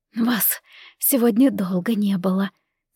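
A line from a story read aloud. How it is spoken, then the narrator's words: Quiet. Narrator (Russian): тихо сказала мама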